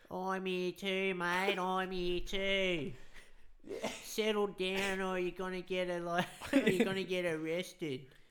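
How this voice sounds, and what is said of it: Put-on broad Australian Bogan accent. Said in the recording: “the very Aussie Bogan accent is its own dialect ... Those real high pitched Bogans”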